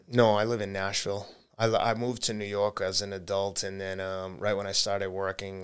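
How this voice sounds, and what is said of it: Boston accent. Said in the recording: “Boston, I thought. You still got the accent.”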